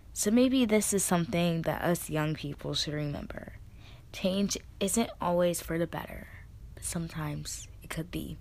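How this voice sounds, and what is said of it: Tired, strained, fading voice. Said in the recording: “I'm tired. I'm losing my voice”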